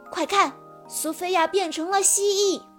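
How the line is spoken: Loud urgent shout. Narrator (Chinese): 赛克立即大声喊道

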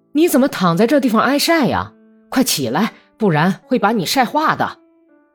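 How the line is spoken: Calling out. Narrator (Chinese): 朝阿克西尼亚喊道

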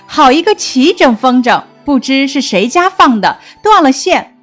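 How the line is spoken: Maids laughing. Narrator (Chinese): 众丫鬟笑道

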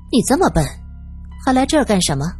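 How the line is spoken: Cold. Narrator (Chinese): 小个子女人冷冷的说道

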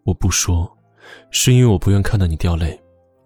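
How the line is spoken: Sighing, resigned. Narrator (Chinese): 穆萧寒叹了口气，这才无奈的说

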